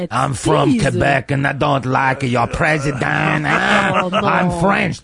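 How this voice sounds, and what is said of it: Put-on French-Canadian accent. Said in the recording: “Don't you like my accent?... you know it's a good accent when you have to point out what the accent is... French-Canadian”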